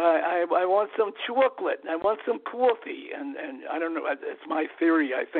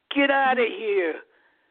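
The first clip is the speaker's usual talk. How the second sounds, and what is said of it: Imitated New York accent. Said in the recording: “this sweet, wonderful accent ... the New York accent”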